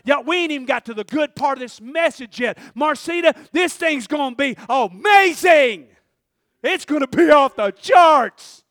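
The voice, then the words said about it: Loud yelling preaching delivery. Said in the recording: “why are you yelling at me? I didn't come to get yelled at. Sorry, it's just part of the message.”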